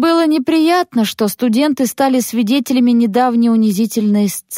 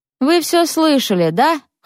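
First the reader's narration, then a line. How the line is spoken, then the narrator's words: Snorting. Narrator (Russian): хмыкнула Над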